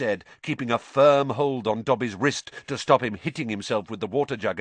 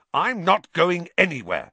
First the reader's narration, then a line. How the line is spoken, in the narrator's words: said Harry, fiercely